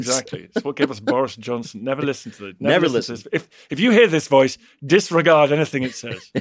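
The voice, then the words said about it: Oxbridge English accent. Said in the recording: “a great Oxbridge accent”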